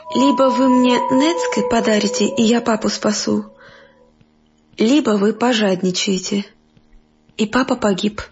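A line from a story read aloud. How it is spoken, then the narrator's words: Girl, sighing, stern. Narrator (Russian): Девочка тоже вздохнула и сурово произнесла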